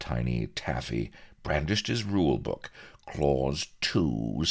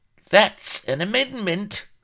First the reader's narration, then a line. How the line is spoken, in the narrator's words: squealed the little Welshman